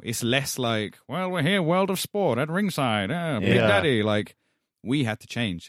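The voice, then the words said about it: British speaker with slight American twang. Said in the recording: “you have a bit of an American twang in your accent. Is that a performer's voice?”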